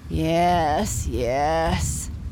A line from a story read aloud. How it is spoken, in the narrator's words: said his papa sleepily